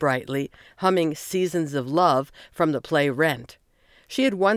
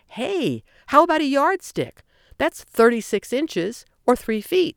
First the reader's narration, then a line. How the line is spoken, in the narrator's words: exclaiming